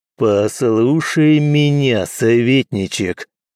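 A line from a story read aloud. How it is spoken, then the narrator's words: Growled. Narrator (Russian): прорычал Алан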